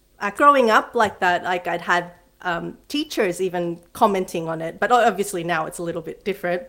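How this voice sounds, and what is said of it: Slight American Filipino accent. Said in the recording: “my accent, if you notice, it still has a bit of like an American Filipino”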